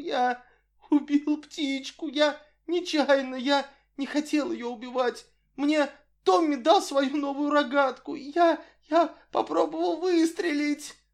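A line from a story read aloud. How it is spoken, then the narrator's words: Voice broken by sobs. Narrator (Russian): выговорил прерывающимся от рыданий голосом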